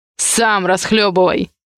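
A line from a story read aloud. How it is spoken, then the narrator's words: Angry parental growl. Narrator (Russian): прорычал родитель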